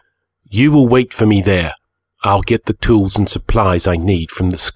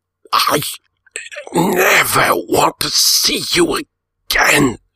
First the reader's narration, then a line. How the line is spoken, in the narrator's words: he gasped in my ear